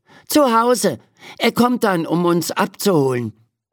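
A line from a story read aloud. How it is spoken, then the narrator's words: Calling out. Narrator (German): ruft Ferdi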